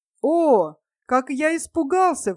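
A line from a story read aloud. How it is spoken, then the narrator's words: Exclaimed. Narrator (Russian): воскликнул Лойзик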